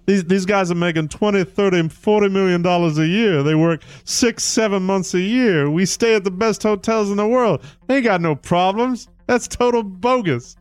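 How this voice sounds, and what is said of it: Charles Barkley impression. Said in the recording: “Charles Barkley, I'll do my Charles impression.”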